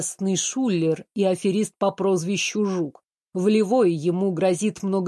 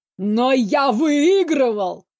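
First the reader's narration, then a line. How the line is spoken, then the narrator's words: Anguished howl. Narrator (Russian): взвыл раненым оленем папенька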